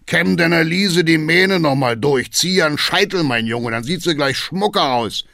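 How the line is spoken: Booming call. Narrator (German): ruft Hackendahl dröhnend

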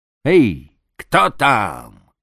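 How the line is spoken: Loud shout. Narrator (Russian): крикнул громко

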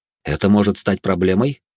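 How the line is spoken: Plain question. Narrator (Russian): спросил я

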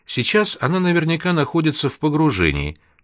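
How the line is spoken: Calm, clearly enunciated. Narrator (Russian): спокойным тоном, четко выговаривая слова

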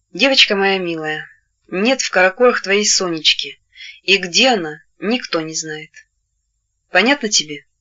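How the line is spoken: Sighing. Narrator (Russian): вздохнув, ответила

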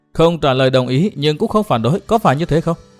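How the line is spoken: Smiling. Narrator (Vietnamese): Nàng áo đỏ mỉm cười

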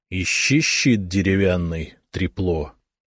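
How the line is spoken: Hissed. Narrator (Russian): прошипел

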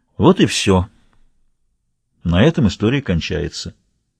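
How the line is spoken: Sighing. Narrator (Russian): вздохнув, он сказал

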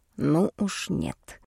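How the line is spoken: Whisper. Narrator (Russian): ответил он мне также шепотом

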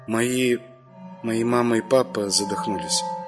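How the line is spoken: Quiet. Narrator (Russian): тихо сказала Маша

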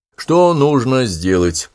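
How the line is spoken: Even, level voice. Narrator (Russian): ровным голосом говорил Коронель

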